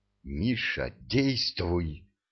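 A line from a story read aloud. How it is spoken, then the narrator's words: Whisper into ear. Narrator (Russian): шепнула мне в левое ухо Верба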